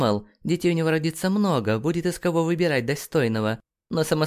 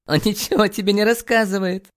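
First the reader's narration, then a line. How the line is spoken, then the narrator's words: Hysterical laugh. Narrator (Russian): Истерично рассмеялась Джулия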